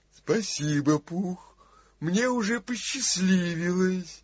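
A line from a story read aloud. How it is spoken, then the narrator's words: Gloomy, dejected reply. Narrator (Russian): уныло ответил Иа-Иа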